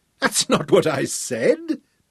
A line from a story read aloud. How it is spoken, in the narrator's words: Tom laughed